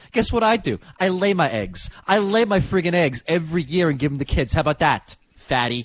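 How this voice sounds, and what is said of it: Jersey accent. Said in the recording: “Jersey accent”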